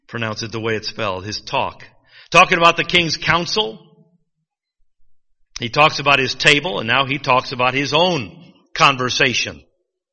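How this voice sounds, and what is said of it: Michigan accent. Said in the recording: “My Michigan accent throws you off.”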